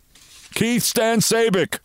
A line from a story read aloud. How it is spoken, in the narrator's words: laughed